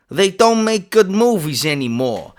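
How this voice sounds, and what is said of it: Put-on Brooklyn accent. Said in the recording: “I did it in a Brooklyn accent”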